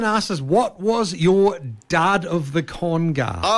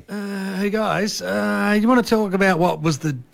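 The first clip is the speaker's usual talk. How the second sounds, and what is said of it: Poor impression of another host. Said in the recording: “no, that's not a good Leon impersonation.”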